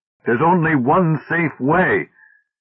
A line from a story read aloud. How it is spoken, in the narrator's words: Davis, past himself with fury, cried